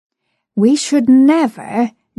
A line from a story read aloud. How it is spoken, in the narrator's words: George said